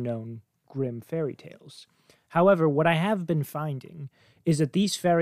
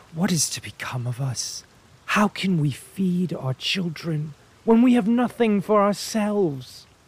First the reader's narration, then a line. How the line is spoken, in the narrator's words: as he was lying in bed worrying about his problems, he sighed and said to his wife